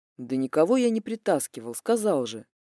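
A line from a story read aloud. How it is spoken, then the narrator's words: Weary. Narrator (Russian): Устало ответил Демьян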